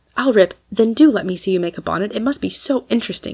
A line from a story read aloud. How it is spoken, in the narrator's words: said Maud, eagerly